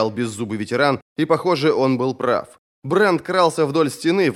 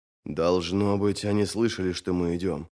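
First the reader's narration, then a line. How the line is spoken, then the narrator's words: Muttered. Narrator (Russian): пробормотал он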